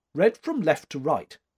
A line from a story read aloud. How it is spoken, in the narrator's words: she said curtly